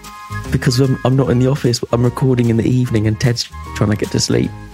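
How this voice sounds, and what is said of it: Whispering voice. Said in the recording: “Why are you whispering? ... sounding like a bit of a whispering... ... Whispering weirdo.”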